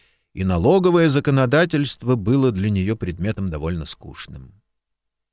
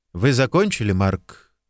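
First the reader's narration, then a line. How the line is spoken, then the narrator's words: Quiet question. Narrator (Russian): негромко спросил риэлтор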